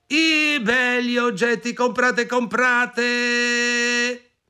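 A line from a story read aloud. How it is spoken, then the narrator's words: Disguised peddler's cry. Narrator (Italian): Così conciata, gridò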